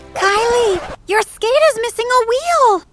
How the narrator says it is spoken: Bridget screamed

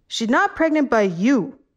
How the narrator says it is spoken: the man yelled

